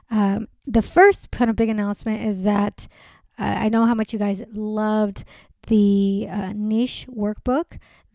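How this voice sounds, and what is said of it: Sick, rough-sounding voice. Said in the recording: “you probably hear my voice is not sounding good. So I've been sick”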